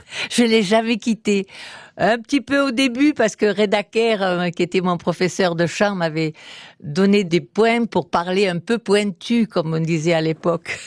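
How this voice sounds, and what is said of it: Slight Provençal French accent. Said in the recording (French): “votre délicieux petit accent provençal”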